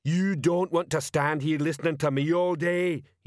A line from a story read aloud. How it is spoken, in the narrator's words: he bellowed